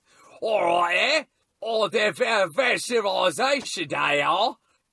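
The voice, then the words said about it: Failed British accent, sounds Australian/Cockney. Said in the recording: “I can only do an Australian accent. I can't do a British accent. ... that's a little more like, what is that, Cockney? ... a little Cockney accent”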